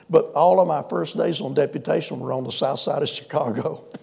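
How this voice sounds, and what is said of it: American Southern accent. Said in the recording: “you can tell by my voice I'm not from New York City. ... I cultivate this Southern accent.”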